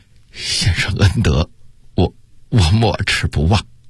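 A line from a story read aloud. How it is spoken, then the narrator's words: Moved, choked with emotion. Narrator (Chinese): 想到金钟这般情重，他的心头顿时一热，哽咽地说道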